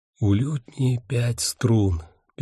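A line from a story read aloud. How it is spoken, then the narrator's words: Whispered translation. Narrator (Russian): переводил Ник шепотом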